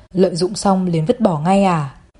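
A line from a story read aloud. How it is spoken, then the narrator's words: Laughing question. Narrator (Vietnamese): hắn bật cười hỏi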